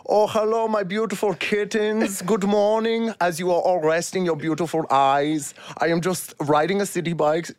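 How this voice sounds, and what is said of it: Put-on accent. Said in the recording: “I'm going to send them a video in this accent.”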